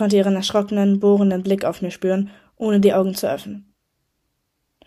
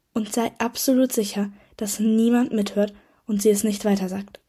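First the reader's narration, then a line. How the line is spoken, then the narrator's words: Whisper. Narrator (German): flüsterte Luna dann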